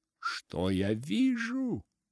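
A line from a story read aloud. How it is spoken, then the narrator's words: Exclaiming. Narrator (Russian): воскликнул Дик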